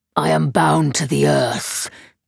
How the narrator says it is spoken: it growled

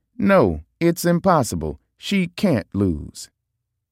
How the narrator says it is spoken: I said happily

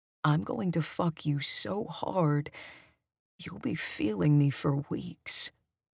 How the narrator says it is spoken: Brad whispers in my ear

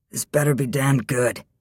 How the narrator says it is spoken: Chrysander growled in a sleepy voice

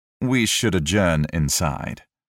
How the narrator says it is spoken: Wolverstone smoothly interjected

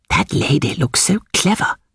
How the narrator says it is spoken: whispered Miss Bartlett to her cousin

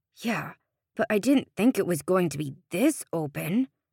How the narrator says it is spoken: Sean grumbled

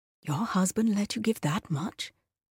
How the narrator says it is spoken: the first woman's voice lowered to a whisper

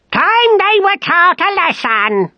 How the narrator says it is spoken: screamed

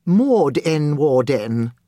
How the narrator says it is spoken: the woman said

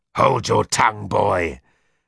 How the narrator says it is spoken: said roughly

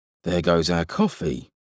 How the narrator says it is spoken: muttered Holmes

